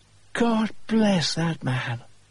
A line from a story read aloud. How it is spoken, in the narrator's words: Penrose exclaimed